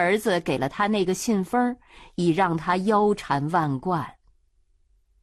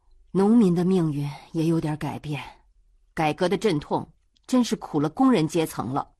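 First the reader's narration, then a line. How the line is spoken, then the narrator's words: Sighing. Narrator (Chinese): 冬梅也叹道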